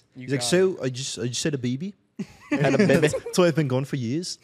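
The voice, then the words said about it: Australian accent impression. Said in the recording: “He's Australian. ... great Sam Muffins impersonation.”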